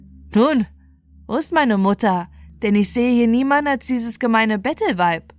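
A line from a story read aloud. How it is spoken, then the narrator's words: Contemptuous laughing speech. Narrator (German): lachte es verächtlich und sprach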